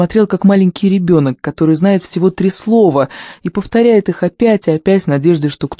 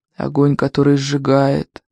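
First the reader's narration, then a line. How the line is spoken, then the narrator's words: Indistinct sad old mumble. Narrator (Russian): невнятно бормотал старый король, и выглядел он все печальней и печальней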